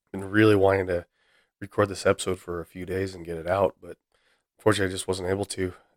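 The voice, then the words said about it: Rough, hoarse recovering voice. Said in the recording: “lost my voice. So, still a little rough, but definitely better than I had been.”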